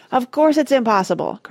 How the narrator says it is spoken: cried Grandpa Joe

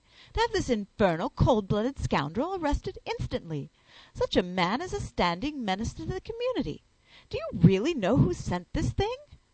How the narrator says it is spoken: I exclaimed passionately

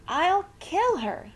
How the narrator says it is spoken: screamed

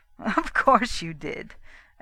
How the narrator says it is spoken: agreed Johnson, joining in the laugh

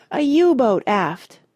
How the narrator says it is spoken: shouted Rush

